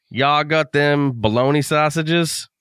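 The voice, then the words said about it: Put-on Southern US accent. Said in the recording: “your southern belle accent”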